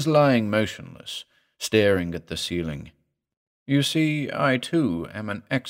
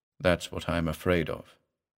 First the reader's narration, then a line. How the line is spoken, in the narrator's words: said the patient in a dull voice